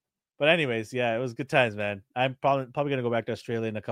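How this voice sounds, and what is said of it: Usual voice. Nothing is said of it.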